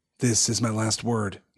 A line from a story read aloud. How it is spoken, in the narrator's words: he said in a low voice